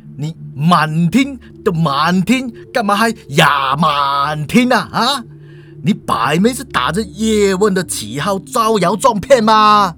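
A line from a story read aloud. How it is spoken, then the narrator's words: Laughing. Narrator (Chinese): 校警哈哈一笑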